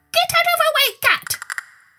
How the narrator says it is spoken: squeaked

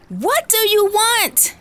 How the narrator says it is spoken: She screams

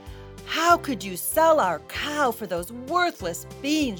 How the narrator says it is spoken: she cried

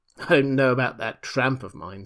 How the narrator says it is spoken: said the invisible man with an unpleasant laugh

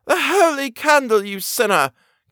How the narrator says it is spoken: cried she

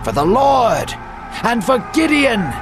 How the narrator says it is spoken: the men shouted

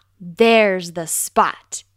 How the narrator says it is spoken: exclaimed Fox

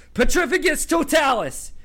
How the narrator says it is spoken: yelled Harry

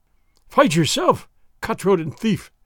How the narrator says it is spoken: the exasperated sergeant cried

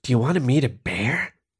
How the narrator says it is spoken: Jenna whispered in his ear

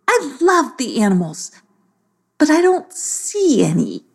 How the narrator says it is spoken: she sighed

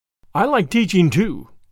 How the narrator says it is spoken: said Gilbert

